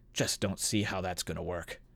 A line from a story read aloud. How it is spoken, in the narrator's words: A rather bookish-looking man of middle years, muttering